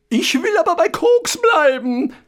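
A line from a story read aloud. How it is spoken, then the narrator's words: Ghost shrieking. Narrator (German): kreischte das Gespenst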